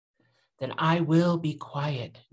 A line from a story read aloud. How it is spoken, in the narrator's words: Narampa vowed solemnly